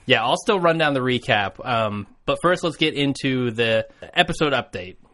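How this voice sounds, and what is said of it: Slightly weird, sick-sounding voice. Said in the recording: “I've caught in a little bit of a bug tonight, so you may notice my voice is a little weird.”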